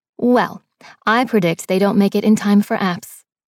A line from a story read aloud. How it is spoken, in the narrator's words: Mickey replied